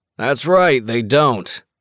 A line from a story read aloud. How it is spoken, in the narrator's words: Sully says, raising his voice to be heard over the music